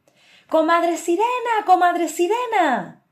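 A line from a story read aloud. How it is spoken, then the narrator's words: Shouting. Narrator (Spanish): comenzó a gritar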